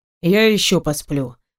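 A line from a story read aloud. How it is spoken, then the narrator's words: Grumbling. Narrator (Russian): продолжает бурчать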